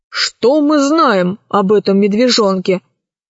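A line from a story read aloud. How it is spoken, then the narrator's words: Plain. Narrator (Russian): спросил Громозека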